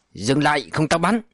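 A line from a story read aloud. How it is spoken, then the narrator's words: Sharp shout. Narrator (Vietnamese): hắn liền quát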